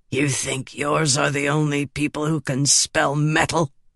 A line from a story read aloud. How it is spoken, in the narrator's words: Varices hissed